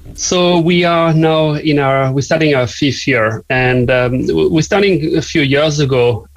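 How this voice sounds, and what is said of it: French accent. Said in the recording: “as you may guess from my accent, I'm not from here, from Cork. I'm from the south of France.”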